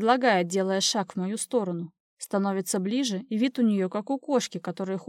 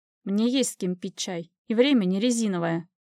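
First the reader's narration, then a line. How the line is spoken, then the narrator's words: Sharp reply. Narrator (Russian): отвечаю резко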